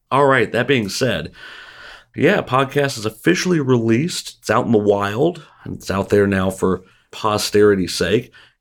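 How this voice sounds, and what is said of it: Congested, muddled voice from a cold. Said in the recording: “I was laid low with a cold ... my voice isn't super great ... I'm likely to sound more muddled”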